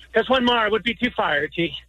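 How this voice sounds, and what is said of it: Put-on Irish accent. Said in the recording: “And the accent, I have too farty.”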